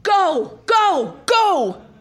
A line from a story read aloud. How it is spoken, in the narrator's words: Pavlich shouted from down below